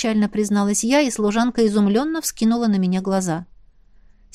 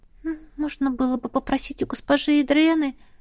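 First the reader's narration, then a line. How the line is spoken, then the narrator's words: Uncertain. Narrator (Russian): неуверенно предположила она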